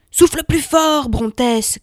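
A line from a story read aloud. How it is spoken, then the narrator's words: Shouting. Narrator (French): cria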